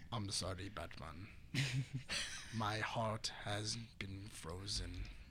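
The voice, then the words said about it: Villain voice with Hispanic accent. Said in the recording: “Especially with the Hispanic accent”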